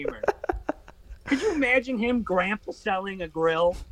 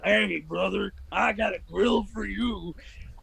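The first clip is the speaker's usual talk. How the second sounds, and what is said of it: Hulk Hogan impression. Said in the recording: “terrible Hulk Hogan impression”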